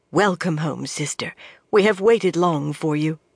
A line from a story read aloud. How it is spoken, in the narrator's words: murmuring